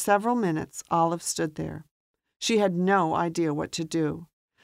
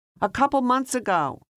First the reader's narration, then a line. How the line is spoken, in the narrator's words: Anne yelled in the wind toward Olive